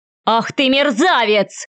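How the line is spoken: Roaring. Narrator (Russian): взревел Львов

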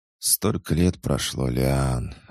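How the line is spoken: Sigh. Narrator (Russian): вздохнула Элейн

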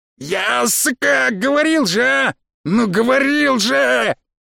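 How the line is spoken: Frantic yelling. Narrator (Russian): Вопил сбоку кто-то ополоумевший

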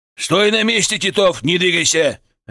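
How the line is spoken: Barked. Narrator (Russian): рявкнул он

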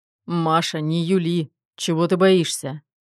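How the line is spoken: Insistent question. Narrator (Russian): Не желая отступать, спросил Руслан

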